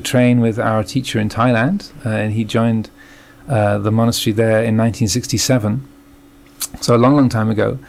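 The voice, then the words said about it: English accent. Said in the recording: “I was born in England, as you can probably tell from my accent.”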